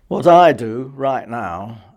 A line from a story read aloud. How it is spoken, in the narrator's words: Alan sighed